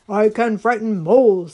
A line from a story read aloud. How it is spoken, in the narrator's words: said the large and growly bear